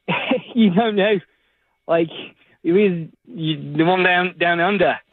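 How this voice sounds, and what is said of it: Put-on Australian accent. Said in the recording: “talk to her in the accent ... my Australian friend”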